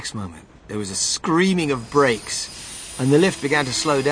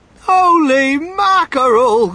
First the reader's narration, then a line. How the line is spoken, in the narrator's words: cried Mr